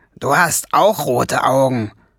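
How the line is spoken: Growling. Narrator (German): knurrte Schwefelfell

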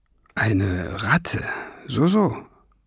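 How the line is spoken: Muttered. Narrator (German): murmelte der Professor

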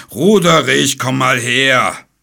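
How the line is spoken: Dragon's roar. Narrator (German): brüllte der 6-köpfige Drache

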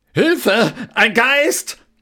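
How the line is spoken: Roar. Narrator (German): Koks brüllte

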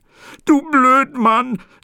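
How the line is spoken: Sobbing. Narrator (German): sagte schluchzend

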